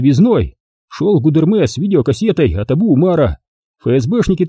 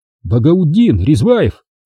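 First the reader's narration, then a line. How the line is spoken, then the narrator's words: Frightened babbling. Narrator (Russian): испуганно пролепетал чеченец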